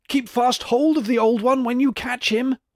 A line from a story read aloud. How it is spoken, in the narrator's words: cried she